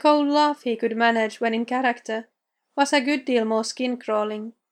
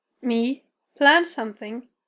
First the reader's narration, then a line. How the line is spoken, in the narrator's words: chuckle was more suited for an old movie than a billionaire mogul